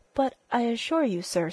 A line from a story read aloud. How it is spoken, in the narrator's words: stammered Fisher